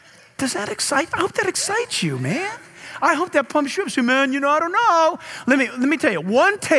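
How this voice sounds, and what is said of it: Usual voice. Nothing is said of it.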